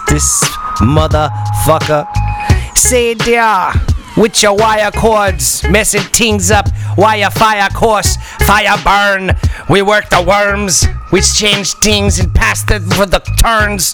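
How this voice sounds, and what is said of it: Fake Jamaican accent. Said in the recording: “I'm speaking with a fake Jamaican accent.”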